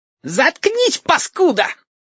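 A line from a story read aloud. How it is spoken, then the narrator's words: Shrieking. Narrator (Russian): Взвизгнул Мухобой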